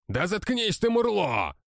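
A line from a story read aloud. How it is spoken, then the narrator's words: Wiry man yelling. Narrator (Russian): вопил жилистый лысый мужчина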